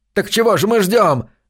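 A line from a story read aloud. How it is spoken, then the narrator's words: Young voice, furious tearful yell. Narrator (Russian): заорал юный Билорд со слезами ярости на глазах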